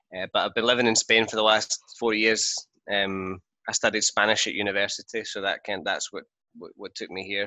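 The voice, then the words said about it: Glaswegian Scottish accent. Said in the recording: “So that's where my accent's from... There are people in Glasgow that have a much thicker accent than me... not a very common accent”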